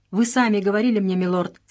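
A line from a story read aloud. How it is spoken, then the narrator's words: Plain. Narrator (Russian): сказал Джордж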